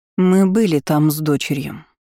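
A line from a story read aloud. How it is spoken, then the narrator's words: Cold. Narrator (Russian): холодно произнесла леди Кортес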